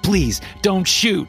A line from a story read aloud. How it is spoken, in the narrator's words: a man yelled in panic